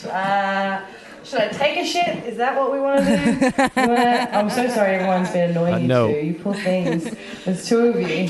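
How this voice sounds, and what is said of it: Australian accent. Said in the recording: “Listen to this voice ... This accent is the worst ... Where in Australia are you from?”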